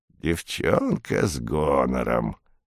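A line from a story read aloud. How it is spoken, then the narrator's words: Hoarse voice. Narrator (Russian): сипло произнесла она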